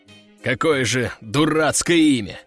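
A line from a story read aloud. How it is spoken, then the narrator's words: Resigned sigh. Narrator (Russian): обреченно вздохнул командир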